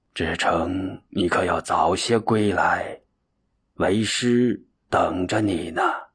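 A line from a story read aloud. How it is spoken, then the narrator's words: Murmuring to himself. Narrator (Chinese): 神秀大师喃喃自语道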